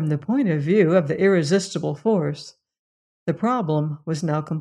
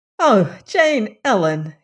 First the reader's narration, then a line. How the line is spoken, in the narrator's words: cried